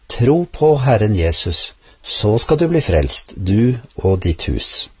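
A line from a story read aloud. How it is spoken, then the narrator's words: Calm reply. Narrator (Norwegian): misjonæren svarte rolig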